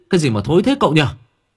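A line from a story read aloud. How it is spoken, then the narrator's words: Shrieking. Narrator (Vietnamese): Thằng nhái rú lên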